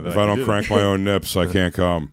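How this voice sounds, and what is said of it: Imitates another person's voice. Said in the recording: “Ralph impression ... That's my impression of Ralph.”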